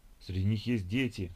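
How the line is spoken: Exclaimed in horror. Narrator (Russian): в ужасе воскликнула Ольга

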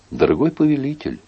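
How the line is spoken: Meek and sad. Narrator (Russian): сказала Марго кротко и печально

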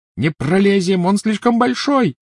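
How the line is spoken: Shouting. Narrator (Russian): закричала Гермиона

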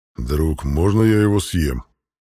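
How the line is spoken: Growl. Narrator (Russian): прорычал мой питомец

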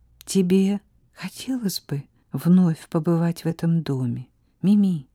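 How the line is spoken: Quiet question. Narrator (Russian): тихо спросила Сара

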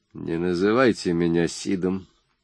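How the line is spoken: Quiet, resolute, through gritted teeth. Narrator (Russian): произнес сквозь зубы парень тихо, но решительно

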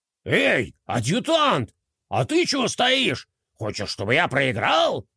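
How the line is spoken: General barking. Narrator (Russian): рявкнул генерал

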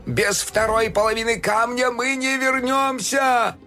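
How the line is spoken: Terrified shouting. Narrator (Russian): В ужасе кричал

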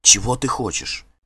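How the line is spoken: Hurried anxious whisper. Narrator (Russian): Торопливо и тревожно зашептала она

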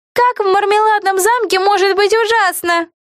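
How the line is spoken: Shouting. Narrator (Russian): крикнул кто-то

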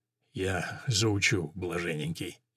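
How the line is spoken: Barely audible mutter. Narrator (Russian): еле слышно пробормотал Жоан

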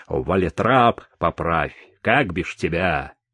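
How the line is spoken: Stern. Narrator (Russian): Сержант строго сказал

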